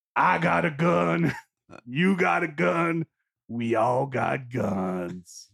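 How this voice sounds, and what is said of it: Deliberately bad impression, Foghorn Leghorn-like. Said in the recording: “your impression of Bobby Cannavale on Boardwalk Empire ... it's purposely horrible ... That's terrible. ... That is really purposely. It's gotten worse too. I feel like it's got a sort of foghorn leghorn sound to it now.”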